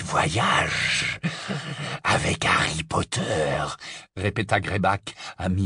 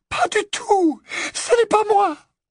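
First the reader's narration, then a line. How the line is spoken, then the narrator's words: Terrified squeak. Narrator (French): Le couinement terrifié d'Hermione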